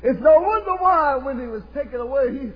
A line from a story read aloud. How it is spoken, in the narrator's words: he cried